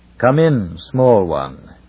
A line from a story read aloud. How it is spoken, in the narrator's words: boomed the Sorn